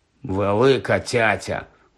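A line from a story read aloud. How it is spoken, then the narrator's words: Grumble. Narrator (Ukrainian): буркнув Рон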